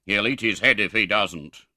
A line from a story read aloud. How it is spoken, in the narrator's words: growled Mr